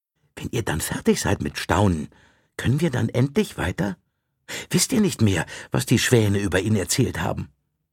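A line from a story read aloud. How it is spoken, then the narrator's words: Soft sigh. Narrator (German): Tristan seufzte leise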